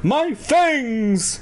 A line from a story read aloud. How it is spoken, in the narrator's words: he cried finally